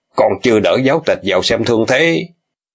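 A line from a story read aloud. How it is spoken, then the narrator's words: Alarmed shout. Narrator (Vietnamese): Triệu Bá biến sắc quát bọn tả hữu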